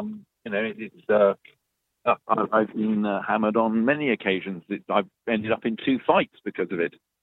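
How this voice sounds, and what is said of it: Posh upper-class English accent. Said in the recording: “your British accent... I would have a posh accent... you have a slightly upper-class accent”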